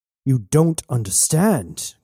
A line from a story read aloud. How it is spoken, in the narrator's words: growled Woods